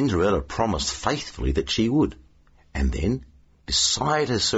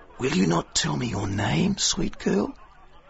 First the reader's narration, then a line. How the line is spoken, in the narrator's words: whispered